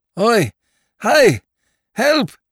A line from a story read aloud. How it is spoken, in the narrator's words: said Lord Peter, shouting lustily